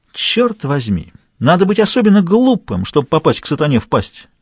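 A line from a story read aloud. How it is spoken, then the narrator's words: Punning exclamation. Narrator (Russian): воскликнул Порник, играя словами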